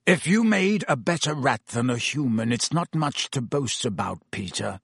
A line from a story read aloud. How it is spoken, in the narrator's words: said Black harshly